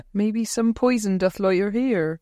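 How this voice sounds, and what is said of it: Exaggerated West Country accent. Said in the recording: “Lucy Punch doing it. That massive West Country accent. ... but in a West Country accent”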